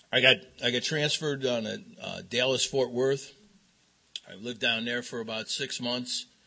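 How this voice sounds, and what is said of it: Chicago accent. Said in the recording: “it was from Chicago and as you can see, I still haven't lost my accent.”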